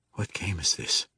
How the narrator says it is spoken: he whispered breathlessly

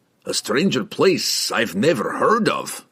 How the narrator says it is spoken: grumbled Brunner, uncomfortable since the underbridge, but resigned

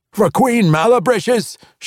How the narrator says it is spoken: shouted one dwarf

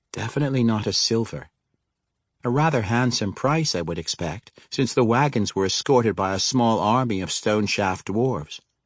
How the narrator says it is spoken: Dinala said

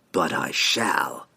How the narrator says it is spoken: Antreri hissed

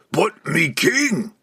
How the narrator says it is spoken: Point roared

